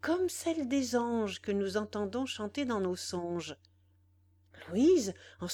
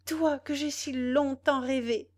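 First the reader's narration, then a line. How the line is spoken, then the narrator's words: Exclaiming. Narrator (French): s'écria Louise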